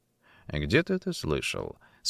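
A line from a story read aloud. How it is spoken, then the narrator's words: Plain. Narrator (Russian): спросил он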